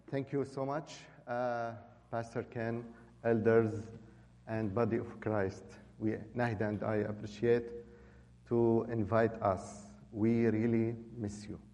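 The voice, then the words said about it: Non-native English accent. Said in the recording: “our accent maybe will be difficult for some of you”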